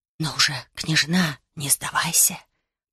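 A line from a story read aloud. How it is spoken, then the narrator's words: Unknown voice whispering. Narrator (Russian): прошептал чей-то голос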